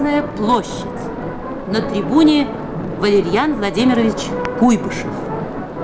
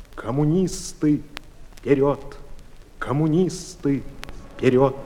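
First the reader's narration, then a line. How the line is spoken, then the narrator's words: Barely audible young man. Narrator (Russian): еле слышно сказал молодой инженер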